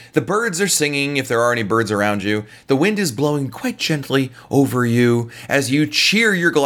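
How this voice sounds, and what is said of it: Usual voice. Nothing is said of it.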